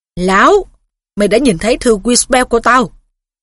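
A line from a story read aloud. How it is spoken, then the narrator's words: Growl. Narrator (Vietnamese): Thầy Phiết gầm gừ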